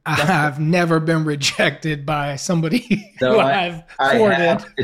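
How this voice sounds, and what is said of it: Impression of a fellow guest. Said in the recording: “I'm going to do an impression of Damon.”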